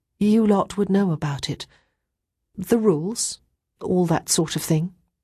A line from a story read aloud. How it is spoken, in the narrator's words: Chrissy went on, her voice wobbling slightly